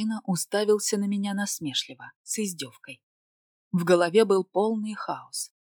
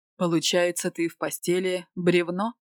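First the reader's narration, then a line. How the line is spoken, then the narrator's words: Angry growl. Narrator (Russian): Зарычав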